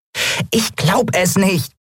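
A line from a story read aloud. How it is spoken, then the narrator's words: Squeaky excited. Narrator (German): piepste Nelen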